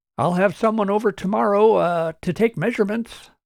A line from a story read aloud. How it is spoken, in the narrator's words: Martin called out